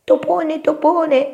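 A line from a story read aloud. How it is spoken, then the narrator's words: Shout. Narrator (Italian): gridò Topino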